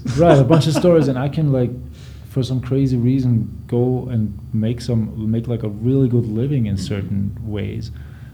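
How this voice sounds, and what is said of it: Austrian-accented English. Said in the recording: “a white dude from Austria with, you know, a fun accent that everybody loves”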